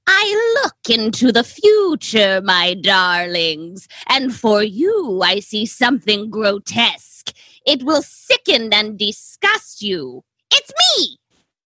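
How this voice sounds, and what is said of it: Poor impression of a cackling horror-host voice. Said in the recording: “how poorly I'm about to do an impression of this man's voice ... The Crypt Keeper himself”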